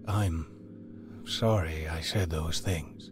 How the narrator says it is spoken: he said to Lara in a much softer tone

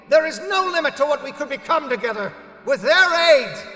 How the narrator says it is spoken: He screamed

